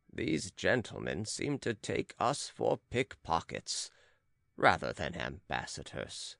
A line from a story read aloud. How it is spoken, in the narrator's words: said Manuel gravely in Portuguese to his companion